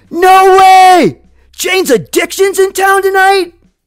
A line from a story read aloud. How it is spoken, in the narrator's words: screams out, yells out rhetorically